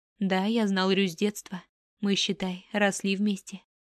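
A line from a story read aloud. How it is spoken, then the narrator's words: Plain. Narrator (Russian): ответил Рен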